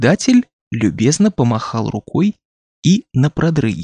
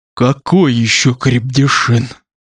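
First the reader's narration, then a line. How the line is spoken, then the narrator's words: Hoarse wheeze. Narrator (Russian): прохрипел он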